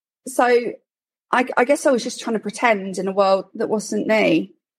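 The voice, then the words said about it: Posh London accent. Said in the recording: “I've got a posh London accent, apparently”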